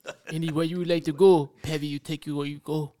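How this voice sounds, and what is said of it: Made-up put-on accent. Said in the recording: “Where did the accent come from? ... He just made that up on the fly.”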